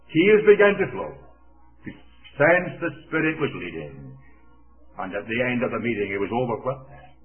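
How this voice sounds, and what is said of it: Scottish accent. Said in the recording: “a Scottish accent”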